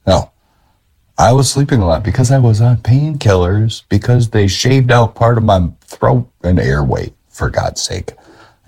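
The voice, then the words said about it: Weak voice, can barely speak up. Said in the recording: “I can barely raise my voice”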